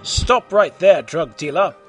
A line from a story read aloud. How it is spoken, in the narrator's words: triumphantly, Super Grover burst in